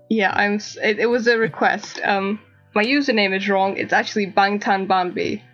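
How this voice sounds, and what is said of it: Speaks with a noticeable accent. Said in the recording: “It's my accent. I swear it's my accent.”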